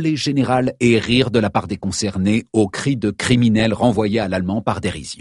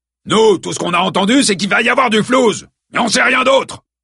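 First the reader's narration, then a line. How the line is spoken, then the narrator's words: Burly fellow shouting. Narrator (French): un gaillard sur le devant du groupe des Allemands cria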